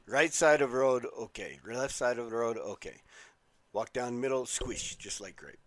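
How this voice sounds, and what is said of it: Bad Mr. Miyagi impression. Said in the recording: “a horrible Mr. Miyagi impersonation ... just bad”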